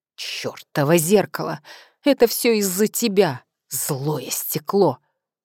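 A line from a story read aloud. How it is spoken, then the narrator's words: Hissed. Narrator (Russian): прошипела Софья Андреевна, и недовольная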